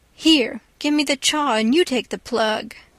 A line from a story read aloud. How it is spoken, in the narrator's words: says sarcastic